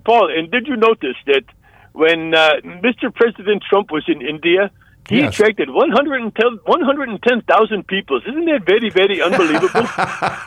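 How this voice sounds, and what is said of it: Good put-on Indian accent. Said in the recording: “your Indian accent. You do a very, very good Indian accent.”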